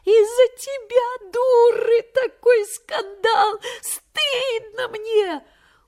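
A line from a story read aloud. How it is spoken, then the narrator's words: Mocking laugh over phone. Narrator (Russian): в телефон посмеялась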